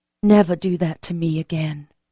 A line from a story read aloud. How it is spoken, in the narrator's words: I said in a low voice